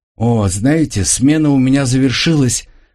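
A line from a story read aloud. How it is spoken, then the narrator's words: Cheerful young woman. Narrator (Russian): радостно проговорила девушка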